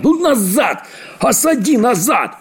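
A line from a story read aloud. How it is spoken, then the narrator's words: Old man shouting, exasperated. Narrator (Russian): бедный старик Чиполлоне не выдержал и закричал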